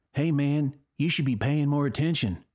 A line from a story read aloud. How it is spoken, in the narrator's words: he said with a southern accent, even though he grew up in California